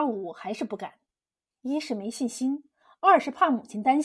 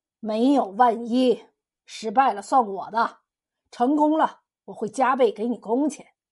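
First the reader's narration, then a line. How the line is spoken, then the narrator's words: Laughing. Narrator (Chinese): 汤员外笑了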